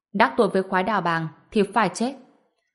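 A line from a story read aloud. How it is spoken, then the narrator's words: Cold. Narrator (Vietnamese): lạnh lùng nói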